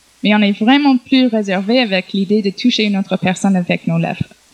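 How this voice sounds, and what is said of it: Speaks French with foreign accent. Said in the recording (French): “Désolé pour mon accent.”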